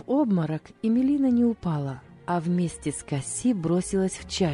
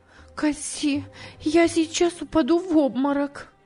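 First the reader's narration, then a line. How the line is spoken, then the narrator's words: Shocked exclamation. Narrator (Russian): сердце Эмилины замерло, она воскликнула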